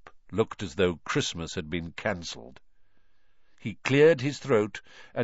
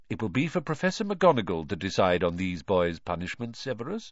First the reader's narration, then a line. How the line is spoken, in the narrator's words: said Dumbledore calmly